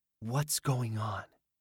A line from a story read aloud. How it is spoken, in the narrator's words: He whispered